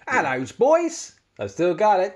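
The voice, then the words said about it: Put-on Cockney British accent. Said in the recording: “Can you do your British accent? ... mirroring a Cockney ... It is bang on.”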